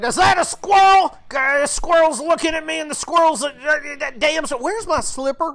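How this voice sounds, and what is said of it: Imitates another person's voice. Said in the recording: “my Joe Biden impression. ... It's completely on the mark.”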